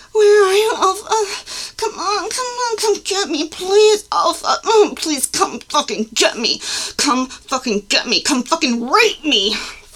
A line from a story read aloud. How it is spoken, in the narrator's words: frantic and desperate, grumbling